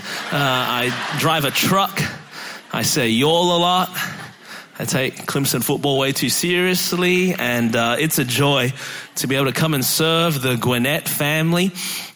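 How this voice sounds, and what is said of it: Australian accent. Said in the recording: “the voice doesn't match where Pastor Reed said I was from ... I was born and raised in Melbourne, Australia. That's the reason my voice is this way.”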